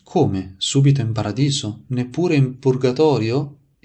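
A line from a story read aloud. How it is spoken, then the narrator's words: Surprised exclamation. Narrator (Italian): esclamò sorpreso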